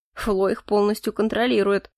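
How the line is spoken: Snort. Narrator (Russian): хмыкнул Морис

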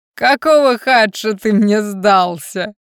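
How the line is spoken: Question after laughing. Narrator (Russian): Отсмеявшись, спросил ледяной

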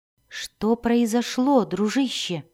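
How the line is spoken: Soft gentle question. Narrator (Russian): мягко спросил Дзирт

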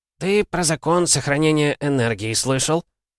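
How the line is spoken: Snort, then speaking. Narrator (Russian): Лев Михайлович хмыкнул и сказал

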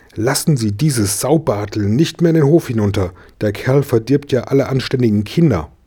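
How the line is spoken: Hissed. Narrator (German): fauchte die Frau Berger

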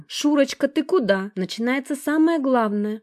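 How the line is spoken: Joyful announcement. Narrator (Russian): радостно объявила именинница

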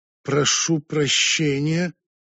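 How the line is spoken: Contemptuous through gritted teeth. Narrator (Russian): Джоанна презрительно скривив губы, процедила

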